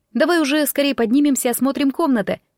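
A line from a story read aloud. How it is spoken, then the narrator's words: Curious exclamation. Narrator (Russian): не скрывая любопытства, воскликнула я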